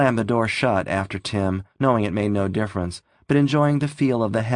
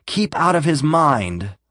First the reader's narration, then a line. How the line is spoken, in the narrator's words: Kurt ordered sharply